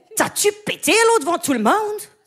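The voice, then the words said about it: Put-on Québécois French accent. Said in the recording (French): “un nouvel accent que je pourrais faire ... C'est un accent d'AVC? ... Non, c'est l'accent québécois. ... C'est le québécois.”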